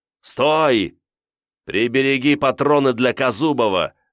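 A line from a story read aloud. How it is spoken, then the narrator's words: Shout. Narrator (Russian): крикнул Диконов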